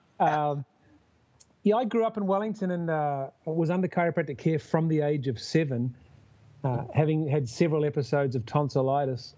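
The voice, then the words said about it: New Zealand accent. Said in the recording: “you may tell from the accent, I'm from down under, and I'm actually from New Zealand”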